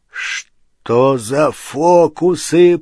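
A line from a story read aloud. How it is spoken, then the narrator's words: Growling. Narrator (Russian): прорычал Хагрид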